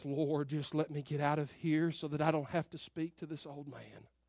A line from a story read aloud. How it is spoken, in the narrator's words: I muttered under my breath